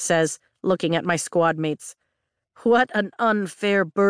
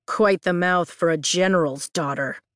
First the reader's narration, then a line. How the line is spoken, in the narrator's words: the woman sneers